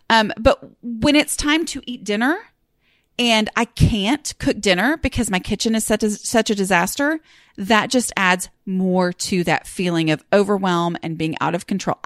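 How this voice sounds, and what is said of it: Strong regional accent. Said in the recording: “accent is really bad this week”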